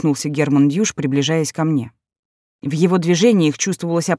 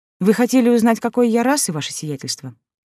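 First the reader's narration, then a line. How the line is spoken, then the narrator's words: Calm. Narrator (Russian): произнесла спокойно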